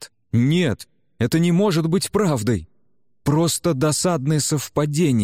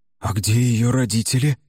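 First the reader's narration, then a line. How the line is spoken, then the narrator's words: Hoarse, strained question. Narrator (Russian): хрипло спросил Генри, с трудом вставая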